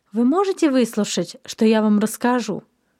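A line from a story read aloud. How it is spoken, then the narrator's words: Calm question, mother. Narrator (Russian): спокойно спросила мама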